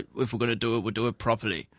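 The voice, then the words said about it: Put-on Scottish accent. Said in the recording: “Good accent. ... In that accent. ... Scotland.”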